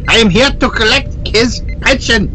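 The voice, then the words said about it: Put-on German accent. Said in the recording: “you'll have a German accent”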